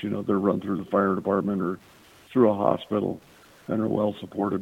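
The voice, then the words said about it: Strained, damaged voice. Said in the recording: “apologize for my voice ... I'm trying to get my voice back”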